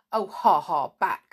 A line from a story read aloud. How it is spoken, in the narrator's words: said Snarl rudely